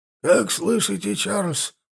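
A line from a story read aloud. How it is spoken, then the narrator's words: Raspy loudspeaker voice. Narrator (Russian): просипел динамик голосом полковника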